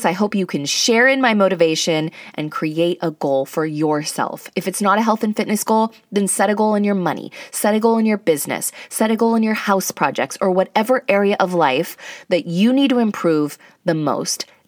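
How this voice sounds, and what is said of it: Excited, energetic voice. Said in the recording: “I'm motivated, I'm excited, I hope you can hear it in my voice.”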